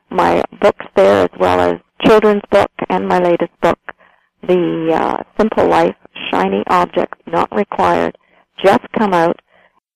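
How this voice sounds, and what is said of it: Canadian accent. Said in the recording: “you're accent sounds like it's coming from somewhere north of the U.S. border”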